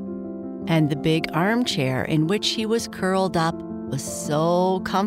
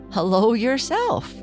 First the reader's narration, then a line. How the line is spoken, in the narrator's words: replied Ned, laughing in spite of himself